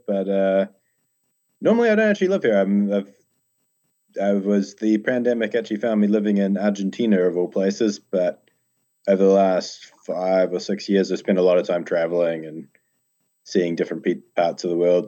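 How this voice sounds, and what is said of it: New Zealand accent. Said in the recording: “if you can't pick the accent, I'm from down under in New Zealand”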